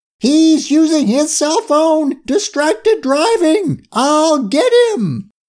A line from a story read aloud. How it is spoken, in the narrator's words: Curie screamed